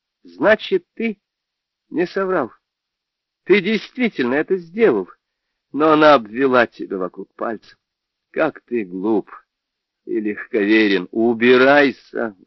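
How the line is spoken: Sudden shout. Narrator (Russian): вдруг крикнула

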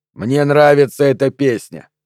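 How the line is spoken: Irritated snap. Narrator (Russian): огрызнулся он

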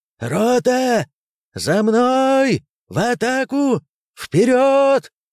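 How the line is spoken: Commander shouting. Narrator (Russian): закричал командир роты

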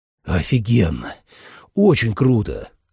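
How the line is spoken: Breathless exhale. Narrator (Russian): выдохнул

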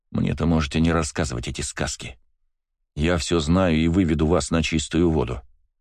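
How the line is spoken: Calm reply. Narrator (Russian): спокойно ответил я

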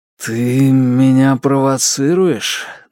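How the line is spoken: Forced out. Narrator (Russian): наконец выдавил он

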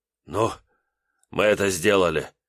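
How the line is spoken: Breathed out. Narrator (Russian): выдохнул

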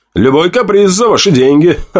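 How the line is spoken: Short laugh. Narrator (Russian): Хохотнул я

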